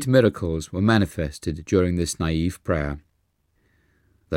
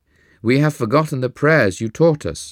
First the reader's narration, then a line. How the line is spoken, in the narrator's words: they cried